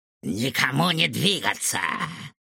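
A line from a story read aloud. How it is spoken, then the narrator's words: Angry command. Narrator (Russian): злобно приказал доктор Финдершлоц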